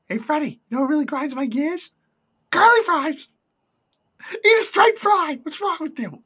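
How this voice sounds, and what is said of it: Angry East Coast comedian voice. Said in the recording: “that Dana Carvey East Coast Comedian thing ... is your Brian last impression? ... Does it sound like Brian? ... He's from New York. She's like, oh, you're just angry.”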